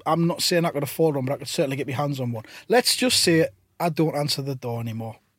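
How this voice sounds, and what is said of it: Northern English accent. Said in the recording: “that kind of northern style accent”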